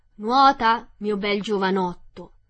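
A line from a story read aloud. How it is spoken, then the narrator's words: Shouted. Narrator (Italian): gli gridò mio nonno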